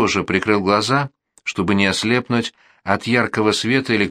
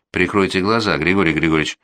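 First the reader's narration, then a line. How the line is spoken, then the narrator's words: Dry request. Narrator (Russian): сухо попросил Тейлер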